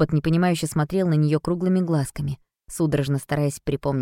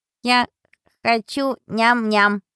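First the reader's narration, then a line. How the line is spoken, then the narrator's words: Squeaking. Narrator (Russian): пропищал он наконец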